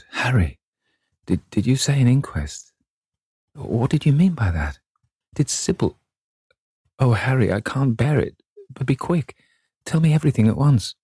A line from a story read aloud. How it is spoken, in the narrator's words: he stammered in a stifled voice